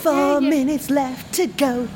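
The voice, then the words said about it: Imitates another person's singing voice. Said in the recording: “my Mark Owen impression”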